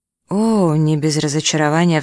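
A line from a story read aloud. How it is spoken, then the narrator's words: Sigh. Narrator (Russian): вздохнула она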